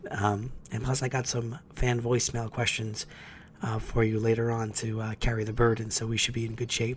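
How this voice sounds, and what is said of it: Voice sounds rough, unwell. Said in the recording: “better than my voice sounds”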